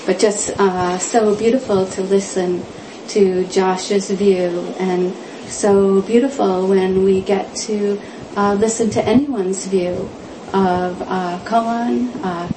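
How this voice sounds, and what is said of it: Hoarse, quiet voice. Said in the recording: “I'm recovering from a little laryngitis, so I can't project my voice too much.”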